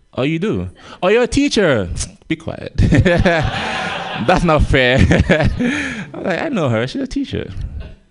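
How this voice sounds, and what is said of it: Gambian accent. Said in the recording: “See, I have an accent, as you guys can tell. I'm from Gambia.”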